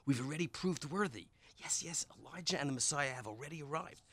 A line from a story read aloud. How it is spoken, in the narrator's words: he said in a hush voice